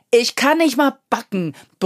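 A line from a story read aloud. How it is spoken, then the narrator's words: Bellowing. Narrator (German): brüllt er schließlich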